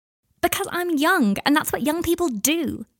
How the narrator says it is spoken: Adelaide shouted at him

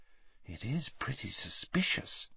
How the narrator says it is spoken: breathed Hermione

